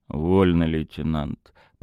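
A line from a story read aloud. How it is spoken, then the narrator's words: Grumbling. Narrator (Russian): проворчал Тарас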